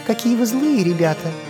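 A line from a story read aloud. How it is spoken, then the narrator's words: Sighing little fox. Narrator (Russian): вздохнула лисичка Джеки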